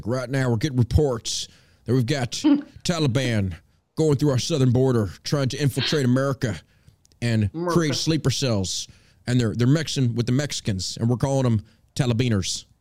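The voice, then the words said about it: George Bush impression. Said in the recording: “You do a pretty good Bush impression.”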